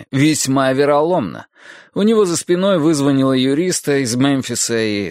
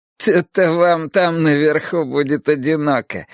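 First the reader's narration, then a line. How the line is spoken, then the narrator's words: Giggling. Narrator (Russian): хихикал мистер Дайл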